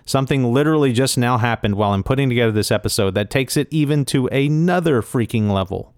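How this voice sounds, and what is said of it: Excited, energetic delivery. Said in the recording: “You can hear the excitement in my voice.”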